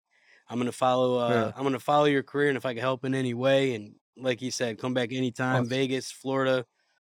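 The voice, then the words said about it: Hoarse, worn-out voice. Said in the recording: “being sick ... my voice is gone from laughing so hard”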